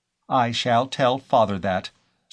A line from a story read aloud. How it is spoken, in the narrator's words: said Phyllis in her most decided voice